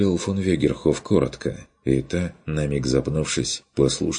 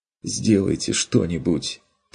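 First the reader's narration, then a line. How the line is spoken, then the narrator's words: Barely audible plea. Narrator (Russian): Попросила она чуть слышно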